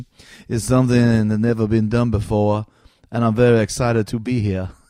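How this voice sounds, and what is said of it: Poor impression of a comedian's voice. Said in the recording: “So Mitch Hedberg, it's terrible.”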